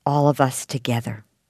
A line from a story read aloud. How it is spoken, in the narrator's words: whispered